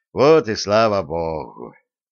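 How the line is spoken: Sincere relieved sigh. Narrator (Russian): с искренним облегчением вздохнул Маевский

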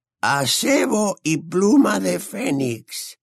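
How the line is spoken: Muttered. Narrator (Spanish): musitó Ollivander

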